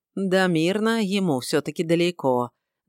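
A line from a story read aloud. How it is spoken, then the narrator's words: Nostalgic sigh, old man. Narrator (Russian): ностальгически вздохнул дедушка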